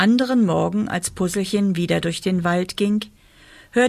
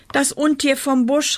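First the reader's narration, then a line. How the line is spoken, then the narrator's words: Calling out. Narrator (German): rief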